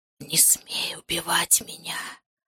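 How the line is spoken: Warm close whisper. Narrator (Russian): прошептал над ухом теплый знакомый голос

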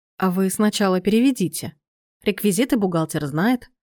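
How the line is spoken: Very calm reply. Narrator (Russian): очень спокойно ответил Сергей

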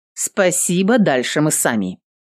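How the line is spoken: Stern. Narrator (Russian): Эвелин строго сказала

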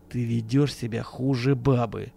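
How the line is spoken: Through gritted teeth. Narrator (Russian): процедил Акимов

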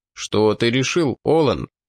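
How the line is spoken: Plain. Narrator (Russian): спросил Олис

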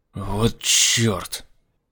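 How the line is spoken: Fearful angry hiss. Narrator (Russian): В страхе и злости прошипел Лемюэль

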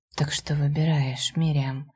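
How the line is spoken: Intimate whisper. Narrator (Russian): прошептал уже в губы

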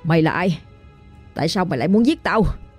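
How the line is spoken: Panting, clipped growl. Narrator (Vietnamese): Anh ta thở hổn hển mà gằn giọng

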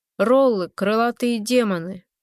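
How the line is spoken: Young man's snort. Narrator (Russian): Парень хмыкнул

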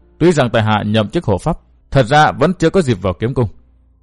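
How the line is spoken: Wry, deeply ashamed. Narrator (Vietnamese): Thất Hồn Thư Sinh cười nhạt, nói ra hổ thẹn vô cùng

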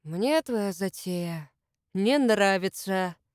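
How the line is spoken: Sighing. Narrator (Russian): Сергей вздохнул

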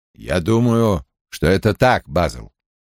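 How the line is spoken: Quiet. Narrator (Russian): тихо произнес Том

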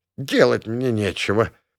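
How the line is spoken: Old woman's angry snort. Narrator (Russian): фыркнула злобно осматривающая меня волшебная бабка, заведующая похищениями детей

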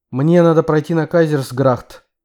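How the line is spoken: Sharp. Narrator (Russian): резко ответил я, пытаясь говорить в той манере, что у Марка замечательно получалось

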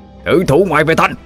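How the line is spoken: Shouting. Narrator (Vietnamese): miệng quát lên

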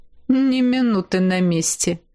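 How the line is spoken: Wry snort. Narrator (Russian): хмыкнул

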